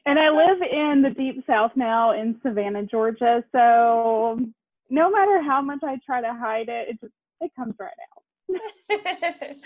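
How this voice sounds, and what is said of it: Southern US accent. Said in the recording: “I hear an accent in your voice. ... I'm from East Tennessee.”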